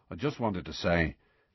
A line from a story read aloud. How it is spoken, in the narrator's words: he mumbled